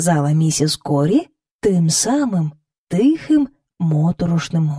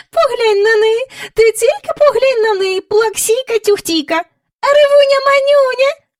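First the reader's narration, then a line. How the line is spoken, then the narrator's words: Squeaky voice. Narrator (Ukrainian): пищала вона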